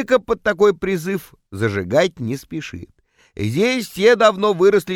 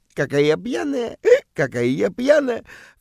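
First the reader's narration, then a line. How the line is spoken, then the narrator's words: Coquettish giggle. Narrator (Russian): когда она кокетливо хихикает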